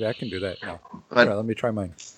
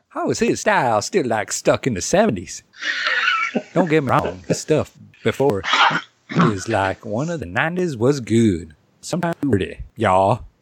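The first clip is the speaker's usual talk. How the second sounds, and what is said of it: Put-on southern accent, part jive. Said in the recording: “Maybe I should have done Bubba because I do a good southern accent. ... Your southern guy is very from like the streets. He part jive”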